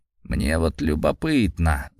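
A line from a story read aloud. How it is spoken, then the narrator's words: Thoughtful mumble. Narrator (Russian): задумчиво пробормотал он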